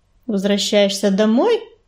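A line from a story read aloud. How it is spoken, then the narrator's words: Dry question. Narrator (Russian): сухо спросил он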